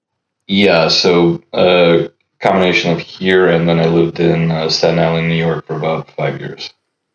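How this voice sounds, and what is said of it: Slight Ukrainian accent. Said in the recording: “if you notice an accent in my voice, that's Odessa, Ukraine”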